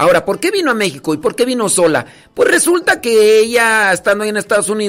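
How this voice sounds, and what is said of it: Usual voice. Nothing is said of it.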